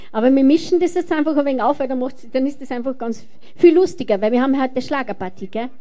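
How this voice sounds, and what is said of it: Austrian German dialect. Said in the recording (German): “Also das ist jetzt österreichischer Dialekt, gell?”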